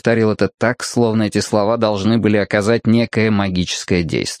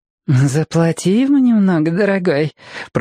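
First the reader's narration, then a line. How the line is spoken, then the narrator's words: Purring woman. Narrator (Russian): промурлыкала женщина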